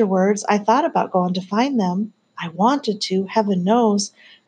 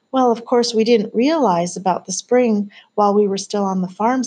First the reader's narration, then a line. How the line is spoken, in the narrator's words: said Miles